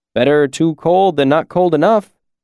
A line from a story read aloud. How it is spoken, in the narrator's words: he said with a humorless chuckle